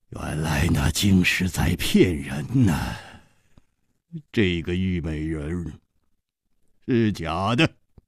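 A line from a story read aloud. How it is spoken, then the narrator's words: Laughing. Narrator (Chinese): 万无敌他笑着说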